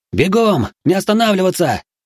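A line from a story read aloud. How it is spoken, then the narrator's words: Terrified shout. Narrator (Russian): крикнул, затылком чувствуя приближение смерти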